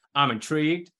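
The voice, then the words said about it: Poor Jerry Jones impression. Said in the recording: “got to do it the voice of Jerry Jones ... That's not a good voice”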